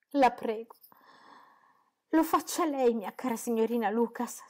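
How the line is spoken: Tearful. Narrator (Italian): soggiunse in tono lacrimoso

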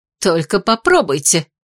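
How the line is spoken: Growled. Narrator (Russian): рыкнула Беата

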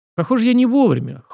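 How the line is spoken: Interested snort. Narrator (Russian): хмыкнул Сашка с интересом

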